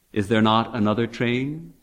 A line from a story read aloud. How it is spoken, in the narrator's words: he asked